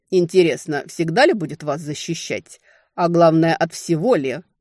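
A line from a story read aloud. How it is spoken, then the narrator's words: Growling. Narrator (Russian): Рычание Кьерда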